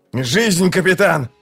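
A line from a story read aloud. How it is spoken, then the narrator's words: Shout. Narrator (Russian): закричал Локон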